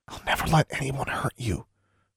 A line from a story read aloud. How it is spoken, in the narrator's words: she whispered fervently